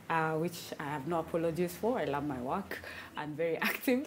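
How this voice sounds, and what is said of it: Whispering. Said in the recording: “you're whispering.”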